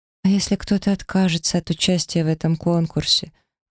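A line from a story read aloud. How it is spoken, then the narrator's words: Timid voice. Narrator (Russian): робко подала голос Ри Оллери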